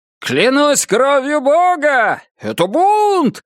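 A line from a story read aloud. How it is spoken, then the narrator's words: Shouting, imitating a pirate. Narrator (Russian): закричал Гард, изображая капитана Джека Воробья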